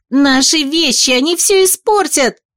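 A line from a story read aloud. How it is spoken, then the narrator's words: Wailing scream. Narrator (Russian): завопила Вилда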